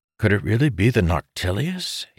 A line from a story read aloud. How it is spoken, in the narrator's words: He muttered